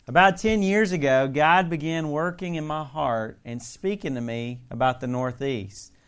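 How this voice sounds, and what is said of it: Southern US accent. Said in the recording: “I was a Southern boy, as you can tell. Most people can still tell that. ... my accent's changed ... it's staying”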